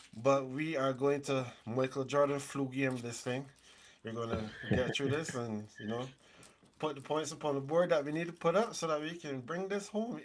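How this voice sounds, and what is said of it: Congested voice from a cold. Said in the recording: “my voice sounds a little bit different because right now I'm battling a bit of a cold”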